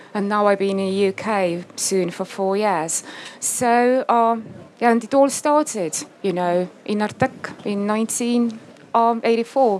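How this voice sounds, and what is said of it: British English accent. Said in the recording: “your English accent is very British”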